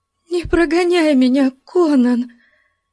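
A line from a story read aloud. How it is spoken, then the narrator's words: Trembling voice. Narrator (Russian): Дрожащим голосом вымолвила она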